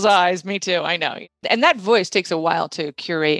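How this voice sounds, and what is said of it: Usual voice. Nothing is said of it.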